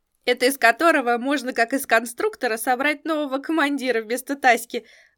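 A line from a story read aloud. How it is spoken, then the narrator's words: Shouted out. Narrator (Russian): выкрикнул Раскоряка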